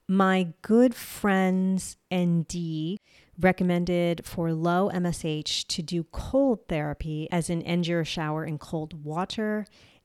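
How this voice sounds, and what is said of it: New Jersey accent. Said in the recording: “that's a weird way I said that ... it's my Jersey accent. I have a hard time saying certain things, and water's one of them”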